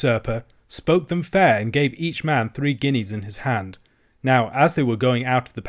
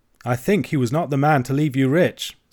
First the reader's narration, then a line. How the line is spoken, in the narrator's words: said I